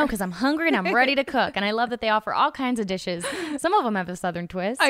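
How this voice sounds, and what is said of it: Usual voice. Nothing is said of it.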